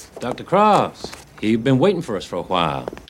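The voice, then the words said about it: Bad put-on Southern accent. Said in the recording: “Cary Elwes ... doing just a terrible Southern accent ... it fits him like a cheap suit ... It's so bad ... He does a better American accent.”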